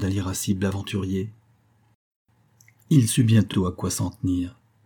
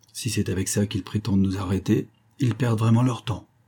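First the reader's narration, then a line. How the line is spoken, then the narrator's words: Murmured. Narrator (French): murmura Benoît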